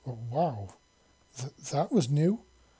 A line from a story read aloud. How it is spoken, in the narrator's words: he stammered softly